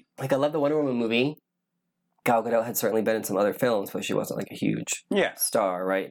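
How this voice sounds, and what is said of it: Strained, fading voice. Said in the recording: “now I'm losing my voice”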